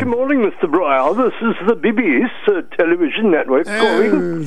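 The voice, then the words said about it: Mixed put-on British accent. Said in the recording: “That was pretty terrible for a British accent, wasn't it? ... I think you do a pretty good British accent, actually. ... It sounds like Britain, Australia, and New Zealand all thrown together in a little bit of New Mexico.”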